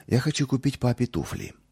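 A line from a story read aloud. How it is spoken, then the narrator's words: Timid. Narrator (Russian): робко проговорил он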